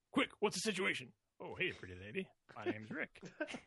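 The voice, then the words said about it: Impression of Rick, Adventure Core. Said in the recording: “Adventure Corps lines ... pretty good impression”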